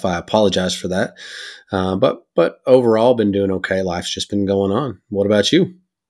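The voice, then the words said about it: Rough, sick-sounding voice. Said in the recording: “I've been under the weather for a little bit ... I sound a little rough”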